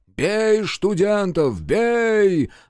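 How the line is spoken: Furious yelling. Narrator (Russian): орали остервенело

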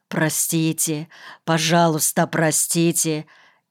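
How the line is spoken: Ashamed muttering. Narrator (Russian): Испытывая жгучий стыд, бормотал Никольский

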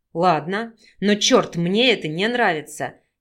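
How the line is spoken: Displeased male growl. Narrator (Russian): недовольно прорычал мужчина

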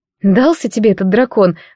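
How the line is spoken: Sighing. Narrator (Russian): вздохнула я

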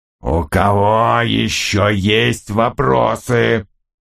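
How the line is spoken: Growled. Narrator (Russian): прорычал он

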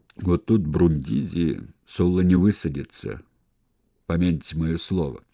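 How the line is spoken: Low humming voice. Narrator (Russian): Он сказал низким, слегка гудящим голосом

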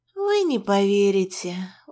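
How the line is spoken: Tired, smiling. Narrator (Russian): устало улыбнулась я

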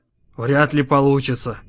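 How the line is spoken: Whisper. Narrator (Russian): прошептал Моррис

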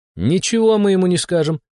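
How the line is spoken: Laughing. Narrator (Russian): хохотнула Шама

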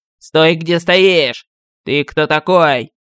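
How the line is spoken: Harsh bark. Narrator (Russian): рявкнул компатибул

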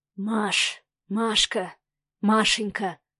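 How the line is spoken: Anguished drawn-out whisper. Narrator (Russian): шептал Савелий с тягучей мукой в голосе

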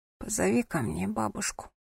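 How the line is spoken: Hoarse detached rasp. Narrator (Russian): хрипло просипела София отрешенным голосом

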